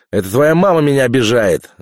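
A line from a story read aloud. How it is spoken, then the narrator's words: Yelling. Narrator (Russian): заорал Иван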